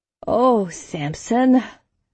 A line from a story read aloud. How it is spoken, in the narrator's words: Sigir sighed